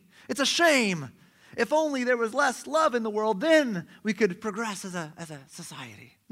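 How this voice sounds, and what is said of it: Put-on unidentifiable accent. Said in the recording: “I don't know what accent that was either.”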